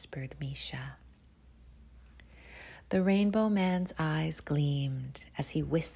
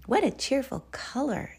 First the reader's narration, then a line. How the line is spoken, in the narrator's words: exclaimed Sandra